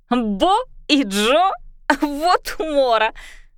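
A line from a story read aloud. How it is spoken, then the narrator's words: Loud laughter. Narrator (Russian): Она захохотала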